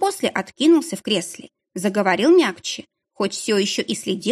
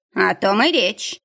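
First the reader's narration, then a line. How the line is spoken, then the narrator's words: Gloomy. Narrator (Russian): мрачно отозвался Образцов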